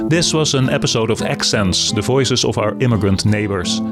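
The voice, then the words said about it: Dutch accent. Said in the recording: “my accent is Dutch”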